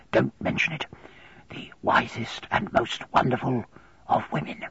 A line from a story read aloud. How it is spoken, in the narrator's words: Here he whispered softly